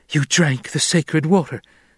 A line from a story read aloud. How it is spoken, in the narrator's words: she blurted